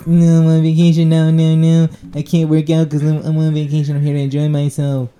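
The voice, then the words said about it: Imitates another person's voice. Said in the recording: “are you doing the Kevin Hart? ... I'm doing the Kevin Hart voice.”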